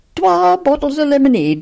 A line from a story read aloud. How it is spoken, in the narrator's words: snapped Johnny at the dumbfounded proprietrix